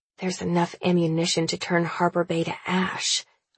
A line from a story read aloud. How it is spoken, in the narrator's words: I mutter, if only to myself